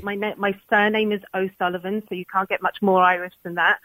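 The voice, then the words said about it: London accent with slight Irish. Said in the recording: “my accent is from London... you do have a little bit of a London accent going on there... there's a little bit of Irish there, and it's just a hybrid”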